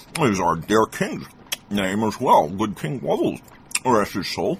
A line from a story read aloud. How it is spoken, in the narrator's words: with his stuffed mouth, the cobbler said